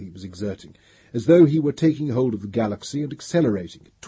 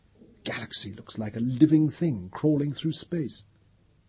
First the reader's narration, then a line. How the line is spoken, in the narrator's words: Pellerat said in a husky whisper